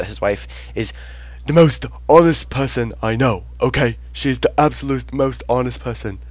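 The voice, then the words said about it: Imitates another person's voice. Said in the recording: “worst Bernie Sanders impression”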